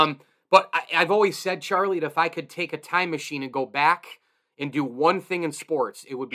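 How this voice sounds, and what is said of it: Usual voice. Nothing is said of it.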